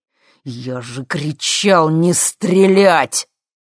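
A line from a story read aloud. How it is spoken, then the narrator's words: Angry, through teeth. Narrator (Russian): зло процедил Юрий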